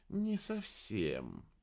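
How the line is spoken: Drawn-out speech. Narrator (Russian): протянула Рыжая

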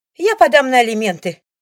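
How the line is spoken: Shrill squeal. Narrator (Russian): взвизгивает Алиса

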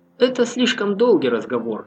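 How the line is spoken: Plain. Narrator (Russian): сказал Чернозем

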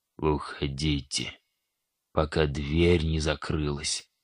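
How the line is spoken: Barely audible bleating old man. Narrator (Russian): еле слышно проблеял старик

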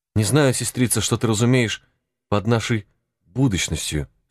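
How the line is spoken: Plain. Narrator (Russian): спросила она наконец

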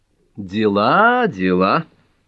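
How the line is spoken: Cheerful. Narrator (Russian): весело промолвила Гермиона

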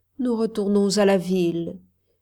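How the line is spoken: Sad reply. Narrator (French): répondit-elle tristement

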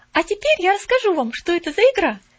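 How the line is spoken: Calm. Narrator (Russian): спокойно продолжала Поллианна

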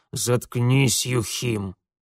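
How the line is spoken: Habitual curt mutter. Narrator (Russian): привычно буркнул урядник

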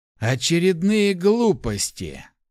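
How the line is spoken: Dejected sigh. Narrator (Russian): сокрушенно вздохнул некромант

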